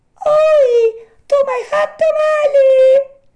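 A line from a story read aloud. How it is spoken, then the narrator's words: Small voice crying ruefully. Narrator (Italian): gridò, rammaricandosi la solita vocina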